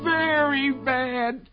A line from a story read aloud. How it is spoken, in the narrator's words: cried the rabbit